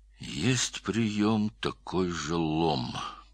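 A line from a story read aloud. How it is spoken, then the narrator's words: Muttered. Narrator (Russian): пробормотал Стольников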